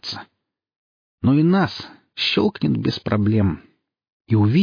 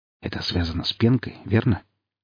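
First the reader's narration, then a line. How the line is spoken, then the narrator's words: Quiet question, professor. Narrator (Russian): тихо спросил профессор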